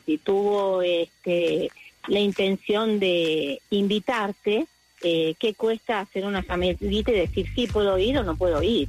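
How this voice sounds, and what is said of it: Argentine Spanish accent. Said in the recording (Spanish): “Me encanta tu acento. ¿De qué país eres? Argentina.”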